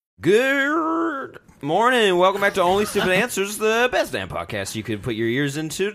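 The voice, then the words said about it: Polished radio announcer voice. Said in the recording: “I love your radio voice. ... It's one of the best radio voices in the business.”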